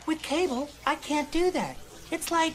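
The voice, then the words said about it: Comically high-pitched voice. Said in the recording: “High voice Peyton Manning... Oh, high voice Peyton Manning.”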